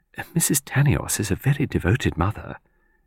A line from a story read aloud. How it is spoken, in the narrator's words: Minnie Lawson murmured